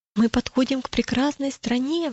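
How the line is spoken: Exclaiming. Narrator (Russian): воскликнул

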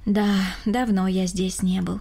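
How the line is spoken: Sighing. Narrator (Russian): вздохнул Рома

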